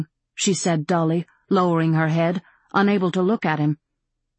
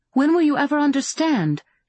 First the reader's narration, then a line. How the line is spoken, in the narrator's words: She cried out in frustration